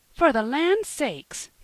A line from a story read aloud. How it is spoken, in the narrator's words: cried Mrs